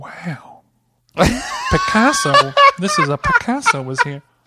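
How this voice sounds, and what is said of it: Imitates another person's voice. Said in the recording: “I didn't know you could do it, Owen Wilson. ... Everyone can do an Owen Wilson wow. That's the easiest impression.”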